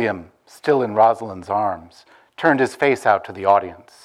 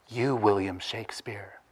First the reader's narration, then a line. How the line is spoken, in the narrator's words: whispered under the applause